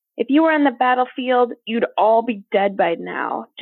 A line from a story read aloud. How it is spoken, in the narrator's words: General Stark shouted, her words ricocheting off Nova's back